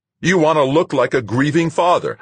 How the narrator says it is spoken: shouted

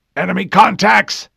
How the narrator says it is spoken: John shouted

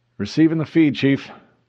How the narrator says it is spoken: called out to the intercom pickup

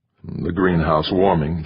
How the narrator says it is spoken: muttered

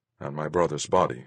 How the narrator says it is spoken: I mumbled

